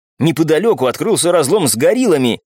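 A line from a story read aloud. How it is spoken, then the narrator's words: Young man exclaiming. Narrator (Russian): воскликнул парень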